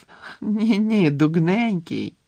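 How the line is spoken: Ringing laugh. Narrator (Ukrainian): дзвінко розсміялася Флер

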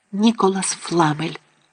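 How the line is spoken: Excited whisper. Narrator (Ukrainian): схвильовано зашепотіла

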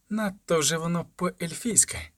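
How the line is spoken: Hissed like a snake. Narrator (Ukrainian): просичала, наче змія

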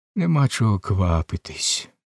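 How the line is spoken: Calm. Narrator (Ukrainian): спокійно відказала Касі

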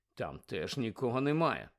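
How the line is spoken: Muttered. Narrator (Ukrainian): пробурмотів

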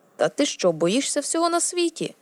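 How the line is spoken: Exclaiming. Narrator (Ukrainian): вигукнув

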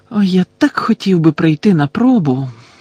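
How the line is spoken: Bitter sigh. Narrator (Ukrainian): гірко зітхнув Гаррі

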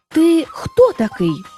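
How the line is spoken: Exclaiming. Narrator (Ukrainian): вигукнув він

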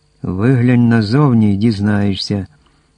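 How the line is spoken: Plain. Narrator (Ukrainian): відповів Дін Гіор

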